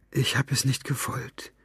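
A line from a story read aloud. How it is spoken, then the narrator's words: Whispered. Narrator (German): flüsterte Maggie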